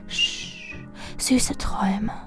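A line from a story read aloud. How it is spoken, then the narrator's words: Whisper. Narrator (German): ich flüsterte nur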